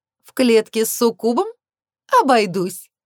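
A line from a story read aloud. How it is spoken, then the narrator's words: Laughing. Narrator (Russian): рассмеялась она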